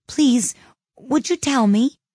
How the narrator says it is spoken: said Alice, a little timidly, for she was not quite sure whether it was good manners for her to speak first

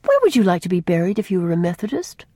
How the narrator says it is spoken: asked Faith, cheerfully

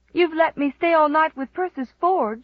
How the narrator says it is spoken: she sobbed

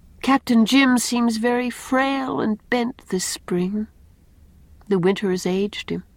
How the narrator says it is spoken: said Anne sadly

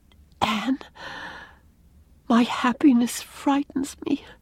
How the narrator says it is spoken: whispered Leslie

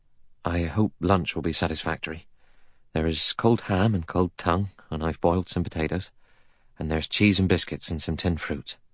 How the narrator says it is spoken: He said in a low, anxious voice

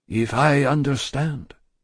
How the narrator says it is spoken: said the doctor, in a subdued tone

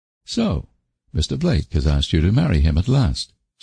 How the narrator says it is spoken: said Anne calmly

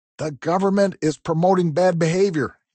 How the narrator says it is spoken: he shouted

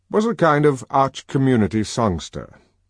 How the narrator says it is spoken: he exclaimed parenthetically

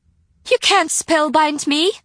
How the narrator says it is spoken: she cried

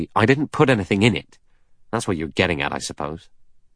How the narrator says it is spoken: Blore said angrily

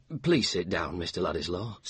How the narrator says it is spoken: said Bulstrode anxiously

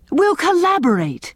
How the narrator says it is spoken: cried Owen delightedly

